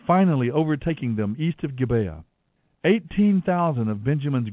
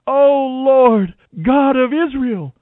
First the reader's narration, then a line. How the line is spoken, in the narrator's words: they cried out